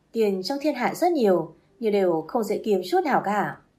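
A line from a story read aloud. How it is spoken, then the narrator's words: Bursting laughter. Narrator (Vietnamese): Lâm bật cười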